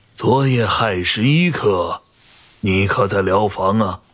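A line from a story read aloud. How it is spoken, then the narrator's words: Hoarse, tense. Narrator (Chinese): 整个人是僵的，声音有些哑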